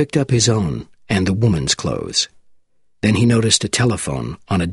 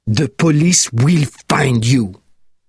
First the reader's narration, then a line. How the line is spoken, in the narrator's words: the Marquis said angrily